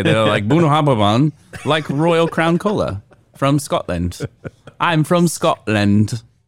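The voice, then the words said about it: Put-on Scottish accent. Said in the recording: “That was a different accent.”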